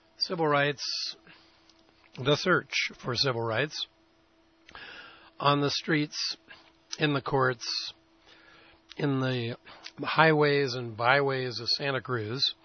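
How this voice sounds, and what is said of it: Sick, slightly rough voice. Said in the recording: “my voice is a little iffy, and that's true. I'm sick. I've got a slight fever, and I can't seem to quite get a handle on this summer cold.”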